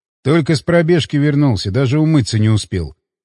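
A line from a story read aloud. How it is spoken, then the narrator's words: Calm answer. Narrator (Russian): спокойно ответил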